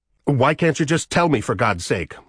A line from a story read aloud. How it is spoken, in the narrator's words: She snapped